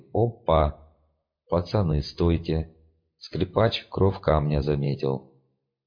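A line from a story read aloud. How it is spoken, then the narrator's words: Fake cheerful announcement. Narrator (Russian): деланно радостным тоном объявил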